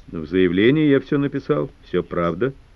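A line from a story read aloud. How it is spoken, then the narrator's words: Dry. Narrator (Russian): сухо ответил Взоров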